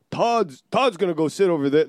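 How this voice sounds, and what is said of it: Imitates another person's voice. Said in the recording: “my best Todd impression. It's not great.”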